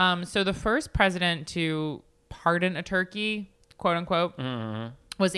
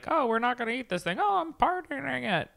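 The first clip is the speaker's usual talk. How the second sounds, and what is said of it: Abraham Lincoln impression. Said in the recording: “my Abraham Lincoln impression I've been working on.”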